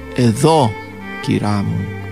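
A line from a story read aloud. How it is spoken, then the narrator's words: Low voice. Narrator (Greek): είπε χαμηλόφωνα η Ραϊσά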